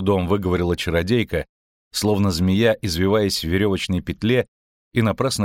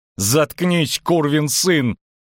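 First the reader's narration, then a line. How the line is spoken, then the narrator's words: Howled. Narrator (Russian): взвыла чародейка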